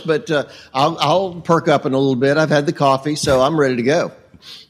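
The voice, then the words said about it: Slightly hoarse voice. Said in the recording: “I'm a little early. I'm a little hoarse”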